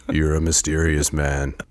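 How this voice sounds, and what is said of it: Reads in a Penelope character voice. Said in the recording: “In my Penelope voice.”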